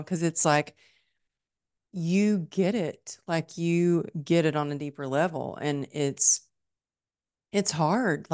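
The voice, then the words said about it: Emotional, choked-up voice. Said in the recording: “I'm getting emotional right now”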